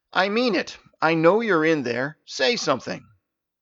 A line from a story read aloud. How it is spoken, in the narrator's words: Staven felt a little more confident and raised his voice to say